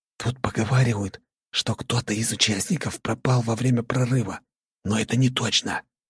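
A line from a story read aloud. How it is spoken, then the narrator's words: Whispered. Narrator (Russian): прошептал Дима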